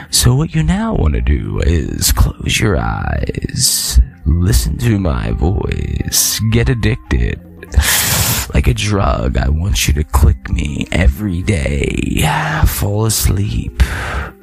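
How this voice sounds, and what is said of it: Imitates a guided meditation tape voice. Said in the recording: “My best impression of a tape.”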